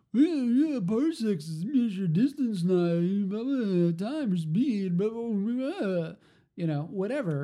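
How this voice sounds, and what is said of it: Imitates another person's voice. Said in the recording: “That's a great impersonation you just did.”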